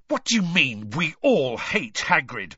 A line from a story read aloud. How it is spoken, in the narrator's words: Harry spat at Malfoy